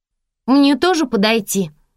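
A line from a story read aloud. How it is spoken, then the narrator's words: Shouted. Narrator (Russian): крикнула Нола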